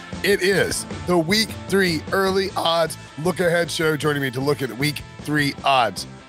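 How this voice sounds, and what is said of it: Hoarse, nearly lost voice. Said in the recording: “my voice is gone somewhere”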